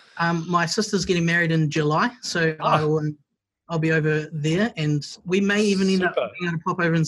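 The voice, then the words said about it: New Zealand accent. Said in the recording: “make fun of your accent ... New Zealand won sexiest accent”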